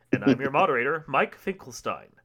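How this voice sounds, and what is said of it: Deep, polished radio announcer voice. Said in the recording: “that was some good radio voice there”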